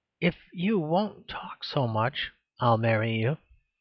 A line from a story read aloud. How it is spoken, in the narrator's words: said Miss Hunt in a very soft voice